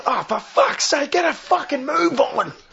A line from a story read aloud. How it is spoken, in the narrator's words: yelling out